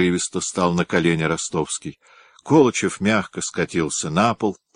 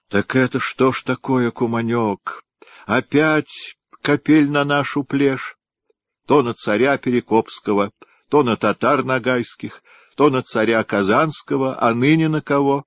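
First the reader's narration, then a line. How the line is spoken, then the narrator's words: Groaning. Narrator (Russian): простонал Колычев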